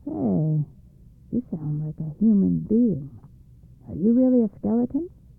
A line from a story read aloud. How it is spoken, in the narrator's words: The evil spirit, hearing a strange voice, said in a puzzled voice